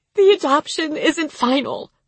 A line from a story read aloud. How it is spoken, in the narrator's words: Sierra said, choking on the words